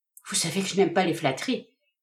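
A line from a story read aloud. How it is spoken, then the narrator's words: Young woman's embarrassed murmur. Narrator (French): murmura la jeune fille en rougissant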